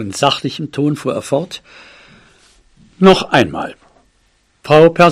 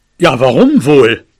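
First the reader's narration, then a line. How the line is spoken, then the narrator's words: Growling reply. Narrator (German): knurrte mein Vater zurück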